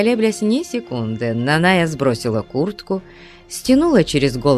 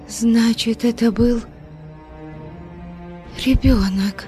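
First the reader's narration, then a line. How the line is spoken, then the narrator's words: Faltering whisper. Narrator (Russian): непослушными губами прошептала Парисита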